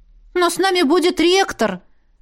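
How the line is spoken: Exclamation. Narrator (Russian): воскликнула

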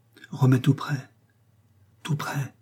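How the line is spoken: Breathy whisper. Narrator (French): soufflait Élise

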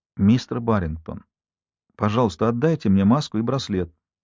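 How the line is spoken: Quiet. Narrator (Russian): сказала я тихо

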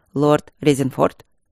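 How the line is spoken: Dry greeting. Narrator (Russian): сухо поприветствовал коллегу Тедус

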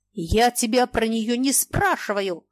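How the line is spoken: Angry shout. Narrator (Russian): злобно закричал Маякин

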